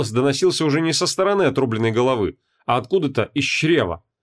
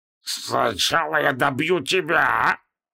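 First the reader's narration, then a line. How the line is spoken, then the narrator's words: Hissed from six mouths. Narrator (Russian): Процедил он, разверзая шесть пастей сразу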